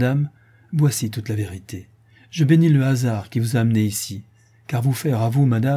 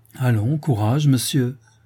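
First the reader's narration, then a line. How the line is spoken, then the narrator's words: Kind tone. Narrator (French): dit Sylvia d'un ton bienveillant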